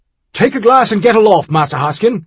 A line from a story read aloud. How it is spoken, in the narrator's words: he snapped